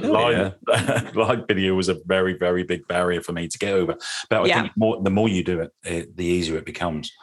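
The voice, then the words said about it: Norfolk English accent. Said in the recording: “the Norfolk accent”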